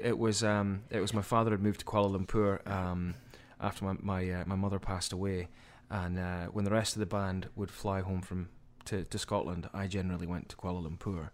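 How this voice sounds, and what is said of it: Scottish accent. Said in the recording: “Scottish born. ... From your accent, we can all tell, I think, that you come from that part of the world.”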